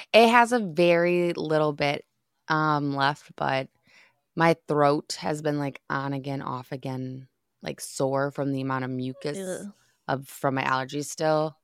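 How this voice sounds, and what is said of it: Slightly raspy voice. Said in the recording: “It's still a touch raspy”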